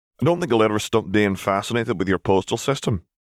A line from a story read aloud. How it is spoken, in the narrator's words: Robert chuckled